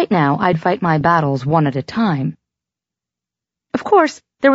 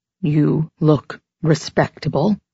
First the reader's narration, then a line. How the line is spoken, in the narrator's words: Carmina said somewhat stiffly